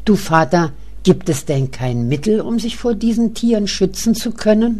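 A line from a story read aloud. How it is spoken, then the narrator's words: Calling out, then asking. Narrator (German): ruft Else und fragt schließlich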